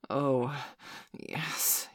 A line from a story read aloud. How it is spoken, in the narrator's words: he breathed